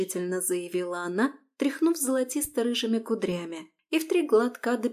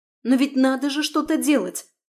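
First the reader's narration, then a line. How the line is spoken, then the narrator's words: Exclaiming. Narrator (Russian): воскликнула она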